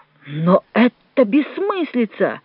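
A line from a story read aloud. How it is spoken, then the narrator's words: Exclamation. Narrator (Russian): воскликнул Джованни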